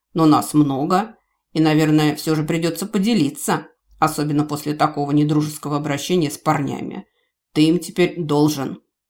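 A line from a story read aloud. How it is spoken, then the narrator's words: Ironic reply with snort. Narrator (Russian): хмыкнув, ответил с нескрываемой иронией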